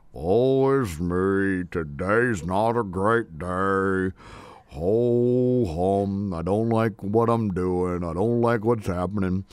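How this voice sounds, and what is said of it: Eeyore impression, gloomy droning voice. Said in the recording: “Here comes one of my favorite characters ... my voice is Eeyore from Winnie the Pooh ... Eeyore from Winnie the Pooh”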